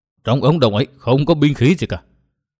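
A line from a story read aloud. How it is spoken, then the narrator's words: Trembling voice. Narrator (Vietnamese): Giọng run run, Kim Lão Nhị đáp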